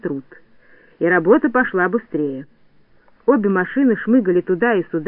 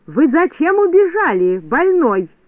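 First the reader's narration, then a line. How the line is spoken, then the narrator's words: Shouting. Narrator (Russian): кричала Медуница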